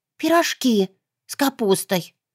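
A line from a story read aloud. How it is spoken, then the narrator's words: Eager breathy reply. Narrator (Russian): глаза загорелись, выдохнул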